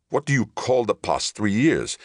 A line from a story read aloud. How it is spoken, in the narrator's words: Deutsch began hotly